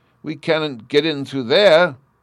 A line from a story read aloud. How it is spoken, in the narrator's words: Bruno exclaimed